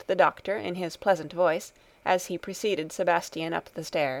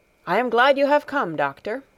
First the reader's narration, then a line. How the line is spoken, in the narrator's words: exclaimed Herr Sesemann